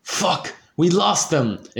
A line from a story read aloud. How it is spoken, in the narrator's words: exclaimed Draco